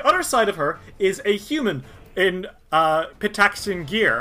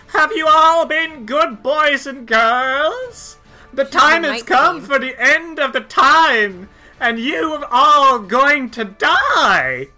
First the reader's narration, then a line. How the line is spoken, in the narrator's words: she cackles and says